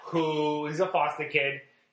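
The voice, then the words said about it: Slips into a Boston accent. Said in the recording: “where is this accent coming from? ... That was more Boston.”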